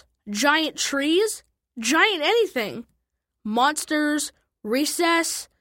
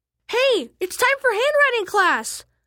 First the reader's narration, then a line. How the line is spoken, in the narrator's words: I screamed